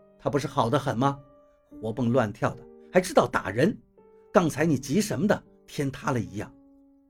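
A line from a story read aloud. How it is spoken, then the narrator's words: Cold, sarcastic. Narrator (Chinese): 董玲他冷冷地说道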